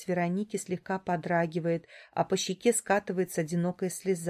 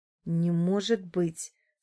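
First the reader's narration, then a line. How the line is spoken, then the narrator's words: Through clenched teeth. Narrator (Russian): цыжу сквозь зубы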